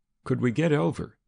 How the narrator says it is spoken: he asked anxiously

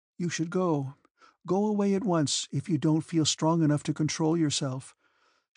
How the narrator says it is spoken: she would reply sadly, trying to comfort her husband

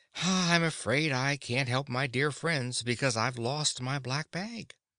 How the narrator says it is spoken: The wizard was really alarmed, but he shook his head and said sadly

